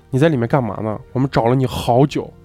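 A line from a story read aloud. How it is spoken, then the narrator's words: Angry. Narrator (Chinese): 一个工友怒气冲冲地说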